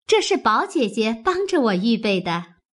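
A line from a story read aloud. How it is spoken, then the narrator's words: Laughing. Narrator (Chinese): 湘云笑道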